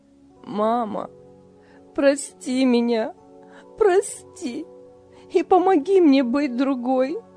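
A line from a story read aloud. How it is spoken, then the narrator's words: Sobbing. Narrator (Russian): рыдала Лиля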